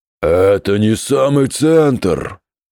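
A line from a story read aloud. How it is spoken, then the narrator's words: Monstrous roar. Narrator (Russian): проревел мясной вулкан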